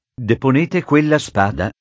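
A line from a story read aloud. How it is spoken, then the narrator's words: Angry command. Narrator (Italian): comandò il viceré con tono adirato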